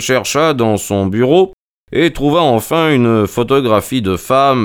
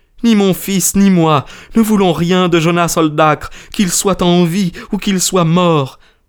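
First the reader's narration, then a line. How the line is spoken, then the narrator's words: Energetic exclamation. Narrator (French): s'écria-t-elle avec énergie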